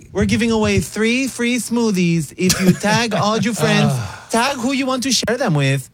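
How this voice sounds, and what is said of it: Put-on Miami influencer accent. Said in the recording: “she's from Miami, apparently, with that accent you're doing”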